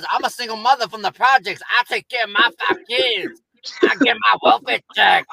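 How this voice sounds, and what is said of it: Put-on Puerto Rican mom voice. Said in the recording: “You sound like a Puerto Rican mom ... Like that's what he sounded like to me.”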